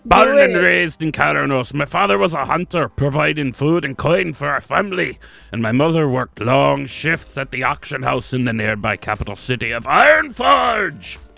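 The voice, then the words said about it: Drunken dwarf character voice. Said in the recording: “You sounded like a drunken dwarf.”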